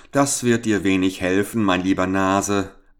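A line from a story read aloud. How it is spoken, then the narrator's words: Laughing reply. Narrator (German): antwortete der Fremde mit Lachen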